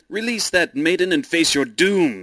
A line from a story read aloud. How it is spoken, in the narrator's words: he cried